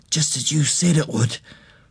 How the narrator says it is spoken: he whispered

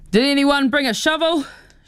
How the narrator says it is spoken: she shouts

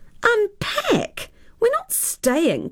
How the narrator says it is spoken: cried Tara

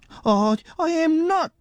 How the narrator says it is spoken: he spluttered

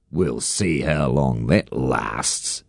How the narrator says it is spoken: Harry Wakatipu sneered

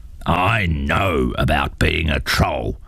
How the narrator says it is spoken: grunted his father

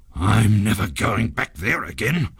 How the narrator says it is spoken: growled the ghost in a very bad temper

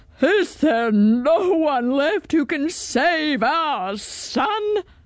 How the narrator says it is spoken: cried the king

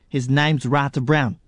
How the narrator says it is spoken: Lisa said quickly

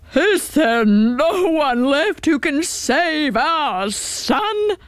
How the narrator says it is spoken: cried the king

